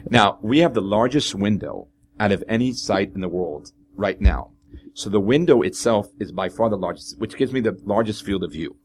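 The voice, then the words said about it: Israeli-accented English. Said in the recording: “that idiot from Israel with a terrible accent speaking English”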